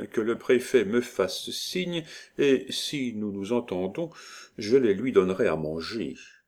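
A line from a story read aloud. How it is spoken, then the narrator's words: Murmuring. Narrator (French): murmura-t-il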